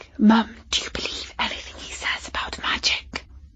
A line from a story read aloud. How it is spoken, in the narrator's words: Katie whispered